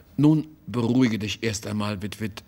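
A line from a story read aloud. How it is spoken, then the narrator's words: Plain. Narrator (German): sagte er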